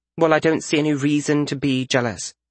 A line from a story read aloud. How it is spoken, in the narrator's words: Frisha said